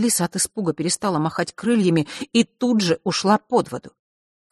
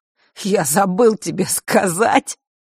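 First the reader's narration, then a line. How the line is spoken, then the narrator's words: Spoken after hearty laughter. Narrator (Russian): выговорил он, вдоволь насмеявшись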